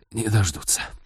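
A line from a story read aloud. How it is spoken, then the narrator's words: Hoarse rasp. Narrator (Russian): прохрипел он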